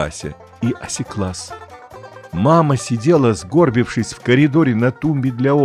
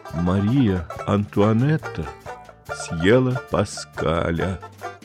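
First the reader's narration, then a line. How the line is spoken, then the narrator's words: Hollow, flat voice. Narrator (Russian): пустым голосом сообщила мама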